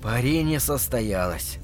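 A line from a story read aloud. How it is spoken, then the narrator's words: Whisper. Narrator (Russian): прошептал Лупов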